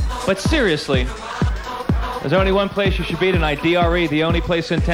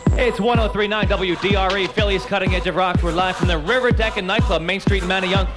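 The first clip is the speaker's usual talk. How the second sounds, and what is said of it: Fast radio DJ delivery. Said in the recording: “I'm talking like a fast disc jockey”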